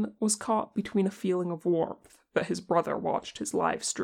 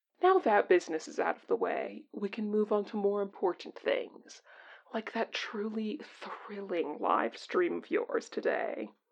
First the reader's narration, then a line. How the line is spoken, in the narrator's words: Tenkun declared once he was done choking